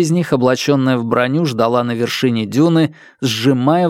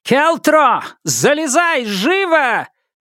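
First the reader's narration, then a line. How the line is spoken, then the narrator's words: Shouted. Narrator (Russian): выкрикнула Хорикс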